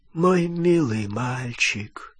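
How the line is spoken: Weak voice. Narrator (Russian): слабым голосом отвечал Олливандер

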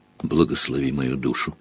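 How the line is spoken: Old man's whisper. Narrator (Russian): прошептал старый бармен

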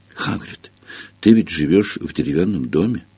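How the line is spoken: Tragic voice. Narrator (Russian): трагическим голосом произнесла она

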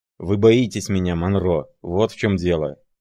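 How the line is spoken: Growl. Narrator (Russian): прорычал он

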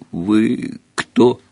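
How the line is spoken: Chuckling giant. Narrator (Russian): Великан хохотнул

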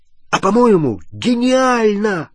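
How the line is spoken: Exclaiming. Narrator (Russian): воскликнул Рон

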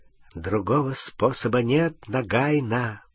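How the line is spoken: Whispered. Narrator (Russian): прошептал он

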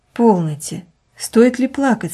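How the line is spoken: Gentle. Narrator (Russian): сказал он ласково

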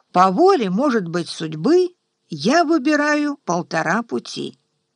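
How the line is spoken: Calm fearless answer. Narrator (Russian): Отец без страха в голосе ему спокойно отвечал

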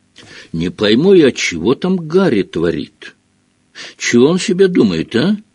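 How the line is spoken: Muttering. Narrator (Russian): бормотал Хагрид

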